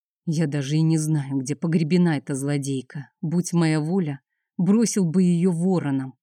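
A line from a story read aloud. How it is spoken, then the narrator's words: Grumbling. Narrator (Russian): проворчал Алексей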